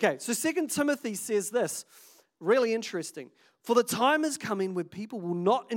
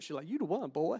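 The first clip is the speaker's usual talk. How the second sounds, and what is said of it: Put-on Southern accent. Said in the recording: “she's got a southern accent when she says that. It's weird.”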